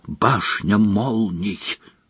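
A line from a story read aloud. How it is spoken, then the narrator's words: Whisper. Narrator (Russian): прошептала она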